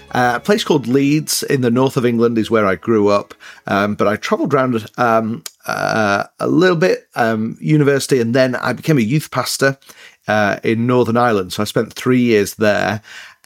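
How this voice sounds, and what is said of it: Mixed northern English accent. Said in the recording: “I have an accent. But yeah, it's an English accent. ... it's northern, but it's a bit mixed up. ... I'm trying to keep my English accent.”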